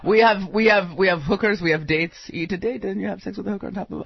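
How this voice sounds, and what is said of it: Put-on Middle Eastern accent. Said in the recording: “racist Middle Eastern accent”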